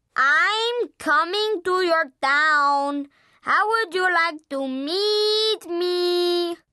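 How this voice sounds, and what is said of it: Very bad put-on Mexican accent. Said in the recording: “in the worst Mexican accent ever”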